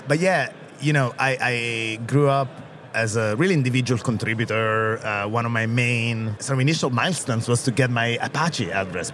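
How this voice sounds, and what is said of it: Italian accent. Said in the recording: “I'm Italian, as you can hear from my outrageous Italian accent”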